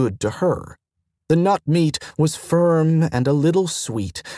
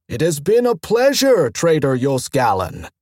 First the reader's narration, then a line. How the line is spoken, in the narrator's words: vendor told, shouting again